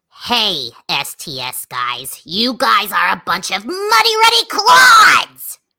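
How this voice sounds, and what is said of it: Cartoon character voice. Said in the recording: “in your Peridot voice”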